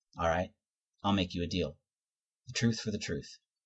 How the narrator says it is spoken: he says evenly

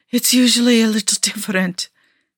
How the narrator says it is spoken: Nikki gasped

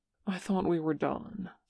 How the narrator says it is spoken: says Seokjin, though he says it quietly

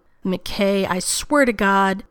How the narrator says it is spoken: Rodney raised his voice to talk over Shepard

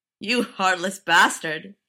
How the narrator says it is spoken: laughed the manager

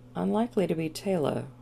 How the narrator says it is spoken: Woolsey murmured, more to himself than to anyone else

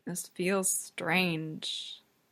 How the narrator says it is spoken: Will murmurs

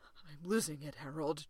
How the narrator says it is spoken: John whispers, the words ragged with feeling

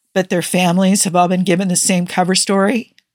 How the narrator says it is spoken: asked Elliot, his fist clenching and his voice tight

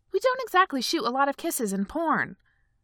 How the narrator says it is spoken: he snapped

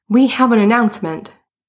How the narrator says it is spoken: said loudly

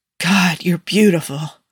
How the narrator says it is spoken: Tony rasped out, then seemed surprised by the sound of his voice, like he hadn't meant to say it out loud

